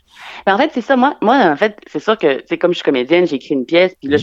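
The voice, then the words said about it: Québécois French accent. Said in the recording (French): “les Québécois, on a un accent un petit peu drôle”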